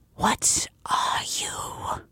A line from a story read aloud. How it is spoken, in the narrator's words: She whispers